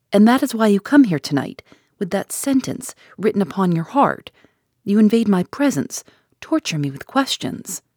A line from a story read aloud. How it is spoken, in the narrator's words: Then she roused and desperately exclaimed